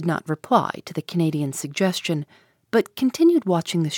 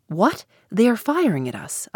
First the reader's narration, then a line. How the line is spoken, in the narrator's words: I exclaimed